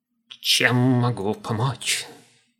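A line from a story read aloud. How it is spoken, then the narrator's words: Thin brittle gnome voice. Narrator (Russian): тонким и ломким голосом спросил гном, точно язык у него был из пергамента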